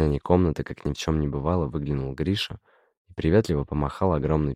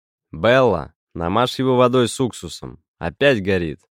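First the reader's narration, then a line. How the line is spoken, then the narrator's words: Distant shout. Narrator (Russian): крикнул из коридора дядя Додик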